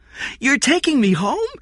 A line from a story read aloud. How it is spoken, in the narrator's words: Jeff said excitedly